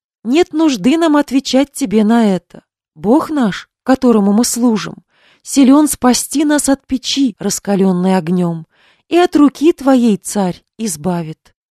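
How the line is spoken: Calm. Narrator (Russian): они сказали царю Навуходоносору

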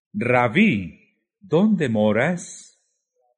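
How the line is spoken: Group exclaiming. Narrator (Spanish): Exclamaron

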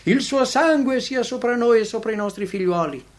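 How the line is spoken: Crowd shouting. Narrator (Italian): i giudei avevano gridato

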